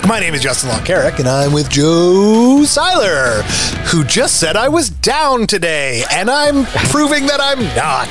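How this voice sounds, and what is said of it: Exaggerated upbeat radio-host voice. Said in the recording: “This is my radio voice. ... You are so fake.”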